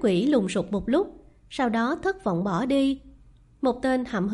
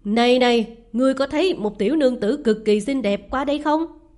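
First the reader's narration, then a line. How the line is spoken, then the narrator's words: Shouted across. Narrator (Vietnamese): Hắn quát về phía người lái đò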